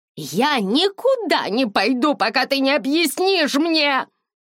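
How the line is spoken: Shouted. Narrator (Russian): закричала

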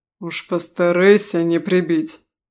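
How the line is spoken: Stern remark. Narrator (Russian): строго заметил лорд Трелли

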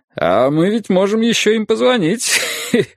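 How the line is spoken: Laughing. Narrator (Russian): сказал Юрий, захохотав

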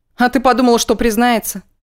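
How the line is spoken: Skeptical snort, eager curiosity. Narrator (Russian): Скептически хмыкнула Арина и с жадным любопытством поинтересовалась

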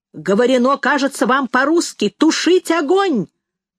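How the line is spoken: Shouting from boat. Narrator (Russian): закричал кто-то с катера

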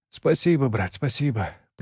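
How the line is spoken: Mumble. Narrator (Russian): пробормотал он

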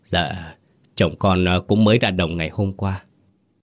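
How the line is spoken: Trembling woman's voice. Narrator (Vietnamese): Bà Sáu cũng cất giọng run run

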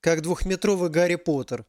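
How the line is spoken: Laughing. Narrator (Russian): рассмеялась Алиса

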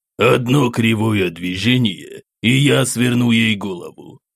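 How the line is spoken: Growl with slight accent. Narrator (Russian): С едва заметным акцентом рыкнул Маджахет

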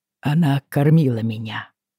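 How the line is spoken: Tired. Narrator (Russian): наконец-то сказал, устало

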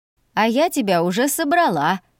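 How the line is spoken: Nervous laugh. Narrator (Russian): нервно хохотнула мама

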